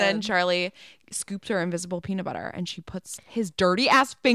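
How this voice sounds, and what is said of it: Usual voice. Nothing is said of it.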